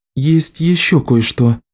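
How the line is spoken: Worried. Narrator (Russian): сказала она обеспокоенным голосом

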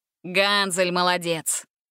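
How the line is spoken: Laughing. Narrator (Russian): Рассмеялся ее брат

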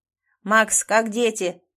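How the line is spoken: Shouted. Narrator (Russian): крикнул Клим

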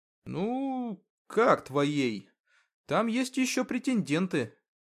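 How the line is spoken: Uncertain remark. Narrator (Russian): неуверенно заметил Артем

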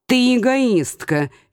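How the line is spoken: Snide smirk. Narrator (Russian): ехидно усмехнувшись

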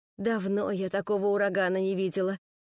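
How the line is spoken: Admiring sigh. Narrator (Russian): вздохнула с восхищением домработница

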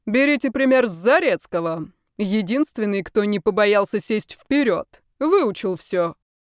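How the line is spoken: Loud declaration. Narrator (Russian): громко заявил

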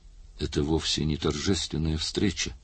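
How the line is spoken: Tired. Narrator (Russian): устало произнес он

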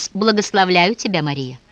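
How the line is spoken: Confident tone. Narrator (Russian): уверенным тоном он произнес

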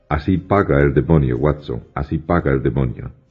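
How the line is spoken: Plain. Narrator (Spanish): me dijo

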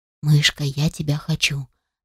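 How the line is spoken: Whisper. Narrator (Russian): зашептал

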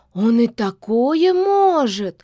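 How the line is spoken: Frightened gasp. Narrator (Russian): испуганно охнула девица

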